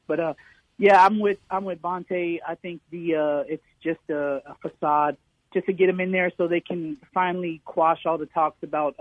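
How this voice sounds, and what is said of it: Hoarse, fading voice. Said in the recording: “Excuse my voice. I'm kind of losing my voice.”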